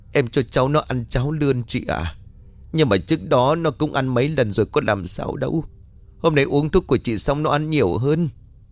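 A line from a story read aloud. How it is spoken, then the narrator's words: Tearful, lips trembling. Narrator (Vietnamese): Tiên mếu máo trả lời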